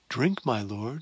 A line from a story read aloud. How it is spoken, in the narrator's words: she said kindly